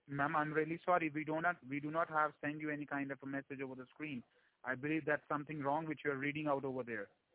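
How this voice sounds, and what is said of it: Strong foreign accent, hard to understand. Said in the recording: “Where's your accent ... you're going to have to slow down your accent. I'm just having a real hard time understanding you with your accent.”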